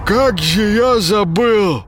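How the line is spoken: Coughing, forced out. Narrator (Russian): откашливаясь, выдавил из себя Паша

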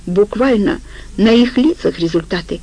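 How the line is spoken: Giggle. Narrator (Russian): хихикнул жопа

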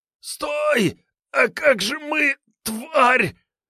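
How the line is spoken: Hoarse angry wheeze. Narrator (Russian): прохрипел от злобы бандит

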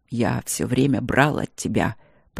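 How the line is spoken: Quiet. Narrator (Russian): проговорил он также негромко

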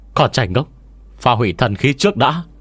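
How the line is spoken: Shout. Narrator (Vietnamese): Quyền Bất Quỳ đã quát lên

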